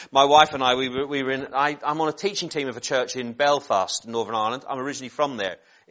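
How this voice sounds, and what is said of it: Northern Irish accent, somewhat mixed. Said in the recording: “If you spotted the accent, you're good ... I've also lived in Norfolk and I've also lived in Essex, and that has all messed with my accent ... some people sometimes say they think I'm from the West Country”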